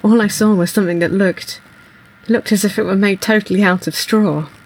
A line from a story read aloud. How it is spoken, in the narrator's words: As he comes round from being choked, he says